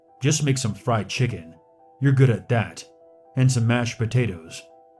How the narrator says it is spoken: said gruffly

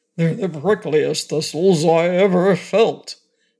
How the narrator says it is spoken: grumbled the lion

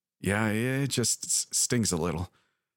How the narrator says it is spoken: Myra said and let out a dry chuckle

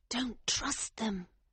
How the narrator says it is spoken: she whispered urgently

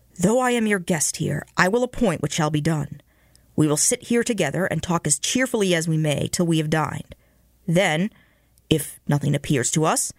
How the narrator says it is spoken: said he in his firm voice

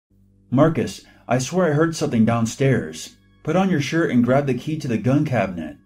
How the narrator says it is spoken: I called out as loud as possible

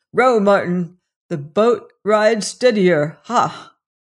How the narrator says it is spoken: said he with a little chuckling laugh

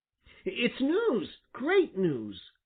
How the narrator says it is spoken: cried Little Joe

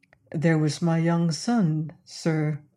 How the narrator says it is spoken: said he in his calm, dispassionate voice

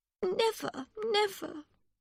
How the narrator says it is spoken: Miss Briggs said sadly

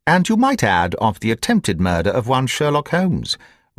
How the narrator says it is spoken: remarked my friend with a chuckle

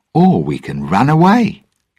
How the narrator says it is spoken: Jack answered brightly

